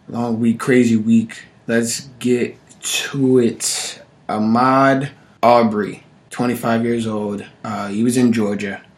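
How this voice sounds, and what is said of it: Voice slightly under the weather. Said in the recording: “My voice is a little under the weather”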